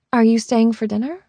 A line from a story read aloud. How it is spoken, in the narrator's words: I asked